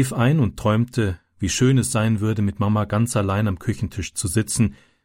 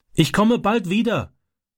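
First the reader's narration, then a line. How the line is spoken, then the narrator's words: Calling through car window. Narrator (German): rief durchs Autofenster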